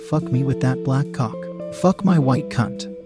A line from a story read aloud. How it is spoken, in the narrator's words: to moan out